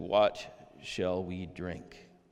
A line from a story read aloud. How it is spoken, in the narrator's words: they grumbled against Moses and said